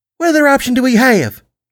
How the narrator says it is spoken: Buttercup said, her voice annoyingly high

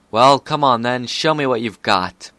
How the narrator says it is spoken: Horn still aglow with fiery light, Corona yelled

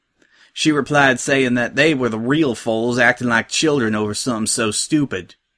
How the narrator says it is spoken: chuckled Applejack

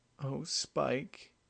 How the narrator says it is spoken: the mare whimpered as a tear rolled down her cheek

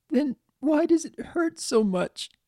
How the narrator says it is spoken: Pinky asked between broken sobs

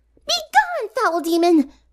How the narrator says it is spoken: Pinky cried

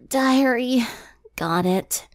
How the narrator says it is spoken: Twilight said with a yawn

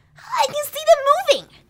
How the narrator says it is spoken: Rainbow Dash exclaimed

